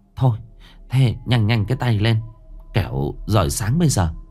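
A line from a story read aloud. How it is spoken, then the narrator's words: Hesitant urging. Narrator (Vietnamese): Bà Tình ấp úng giục con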